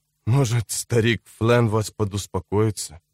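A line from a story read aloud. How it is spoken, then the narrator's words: Quiet mumble. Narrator (Russian): пробормотал он, наконец, тихонько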